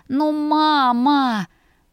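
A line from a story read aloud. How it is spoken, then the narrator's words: Groaning under blanket. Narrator (Russian): простонала я, натягивая одеяло на лицо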